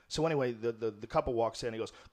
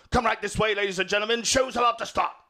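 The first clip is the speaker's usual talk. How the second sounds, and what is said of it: Poorly done put-on Scottish accent. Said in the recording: “this crazy Scottish accent. It's a terrible impression”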